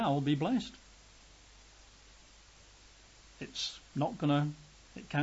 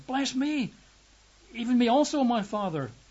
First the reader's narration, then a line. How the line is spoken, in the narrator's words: When Esau heard the words of his father, he cried with an exceeding great and bitter cry and said to him